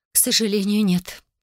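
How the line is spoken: Sad mother. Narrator (Russian): печально произнесла мама

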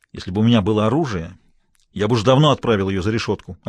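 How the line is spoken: Snapping retort. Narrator (Russian): огрызнулся Смайлоу

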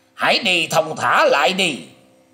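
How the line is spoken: Alarmed hasty shout. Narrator (Vietnamese): Triển Hoành biến sắc mặt, vội vàng quát lên rằng

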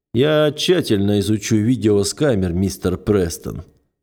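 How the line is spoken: Gloomy. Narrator (Russian): мрачно сообщает мне Джадир

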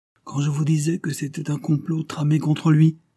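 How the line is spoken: Exclamation. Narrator (French): s'écria-t-il

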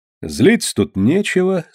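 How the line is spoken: Calm. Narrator (Russian): спокойно сказал Кручинин

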